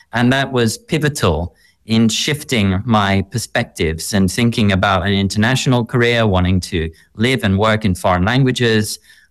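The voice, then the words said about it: Slight Australian accent. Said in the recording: “Australia. You might hear it a little bit in my accent.”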